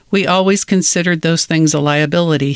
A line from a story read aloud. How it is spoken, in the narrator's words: said